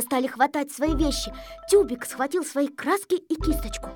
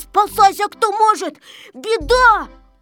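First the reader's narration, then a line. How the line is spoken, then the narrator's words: Shouting. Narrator (Russian): Незнайка кричал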